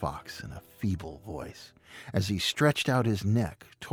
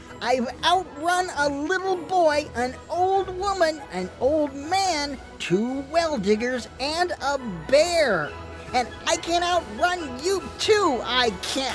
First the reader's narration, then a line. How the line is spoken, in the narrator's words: The gingerbread man came up very close and, leaning towards the fox, screamed out